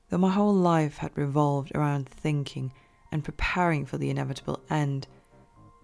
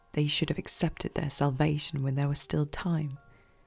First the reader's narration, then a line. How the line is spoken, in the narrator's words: I whispered